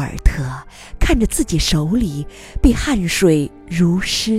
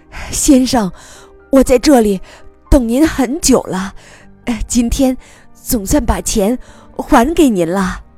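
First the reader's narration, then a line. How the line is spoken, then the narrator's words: Breathless child. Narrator (Chinese): 小男孩气喘吁吁地说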